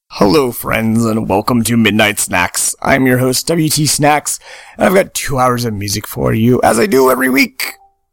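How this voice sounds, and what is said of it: Hoarse, worn-out voice. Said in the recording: “my voice is gone because I've been at the past 5 days of doing shows”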